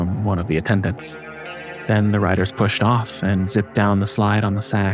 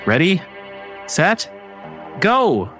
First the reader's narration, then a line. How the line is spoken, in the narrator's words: waiting for a shout of